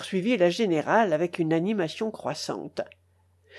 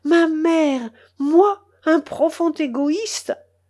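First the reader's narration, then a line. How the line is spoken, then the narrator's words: Desperate exclamation. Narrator (French): s'écria désespérément mon oncle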